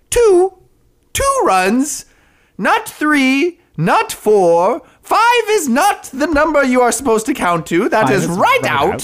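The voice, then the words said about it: Monty Python-style weird counting voice. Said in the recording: “What is this voice you went ... doing a weird counting voice and I slipped into Monty Python”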